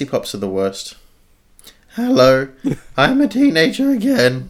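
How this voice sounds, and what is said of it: Usual voice. Nothing is said of it.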